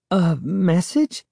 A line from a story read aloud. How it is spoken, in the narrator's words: Sari stammered